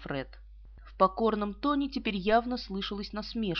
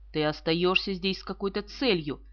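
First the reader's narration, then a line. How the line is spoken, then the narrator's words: Sharp. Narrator (Russian): резко сказала Иза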